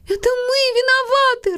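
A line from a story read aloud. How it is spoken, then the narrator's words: Sobbing. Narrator (Russian): рыдала Милли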